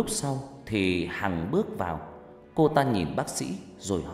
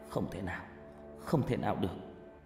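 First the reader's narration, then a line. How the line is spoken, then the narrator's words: Sighing. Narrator (Vietnamese): Tôi thở dài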